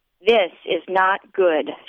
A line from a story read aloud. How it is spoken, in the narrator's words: Charlene says